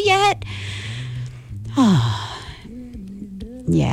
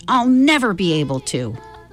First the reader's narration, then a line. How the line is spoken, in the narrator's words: Will grumbled